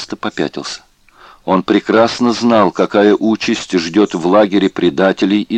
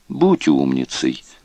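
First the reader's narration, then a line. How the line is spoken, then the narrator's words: Almost tender. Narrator (Russian): почти ласково сказал ему Бергер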